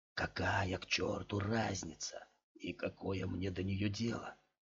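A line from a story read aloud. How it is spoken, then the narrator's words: Deep sigh. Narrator (Russian): глубоко вздохнул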